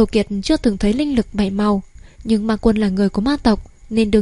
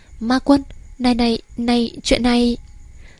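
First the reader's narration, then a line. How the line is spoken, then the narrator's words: Pale, trembling voice. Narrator (Vietnamese): sắc mặt Tư Đồ Kiệt tái đi, run rẩy nói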